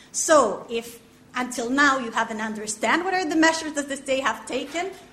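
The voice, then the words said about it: Foreign, non-native English accent. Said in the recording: “it's fairly clear from your name and your accent, if you don't mind me saying, that you're not from these lands”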